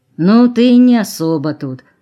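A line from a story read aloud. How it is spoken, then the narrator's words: Peaceable grumble. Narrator (Russian): уже мирно проворчал сторож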